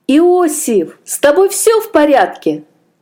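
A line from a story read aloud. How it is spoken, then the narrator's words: Exclaimed. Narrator (Russian): воскликнул Аджей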